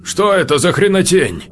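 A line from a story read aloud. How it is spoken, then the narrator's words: Stunned exclamation. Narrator (Russian): только и мог воскликнуть офицер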